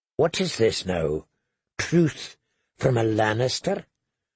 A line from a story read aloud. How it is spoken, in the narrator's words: smiled coldly